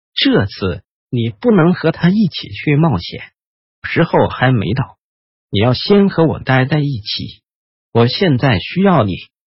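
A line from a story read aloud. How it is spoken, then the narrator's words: Gentle. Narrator (Chinese): 半精灵温柔的说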